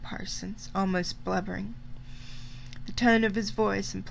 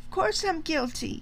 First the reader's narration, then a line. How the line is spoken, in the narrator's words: cried Parsons